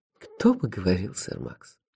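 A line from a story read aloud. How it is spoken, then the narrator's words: Sighing. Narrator (Russian): Вздохнул магистр Нанка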